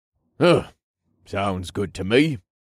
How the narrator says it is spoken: Kylor grunted

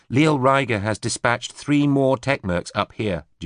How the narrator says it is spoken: Julia said

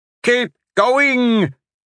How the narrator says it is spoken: Merrick shouted ahead

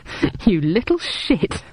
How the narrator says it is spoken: I laughed

